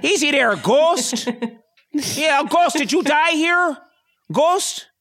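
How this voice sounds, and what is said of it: Put-on Upper Midwest Fargo accent. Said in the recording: “kind of like a Fargo accent ... that's more like Fargo ... That's more Wisconsin.”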